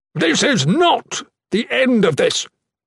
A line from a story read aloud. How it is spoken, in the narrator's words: the Blessed One yelled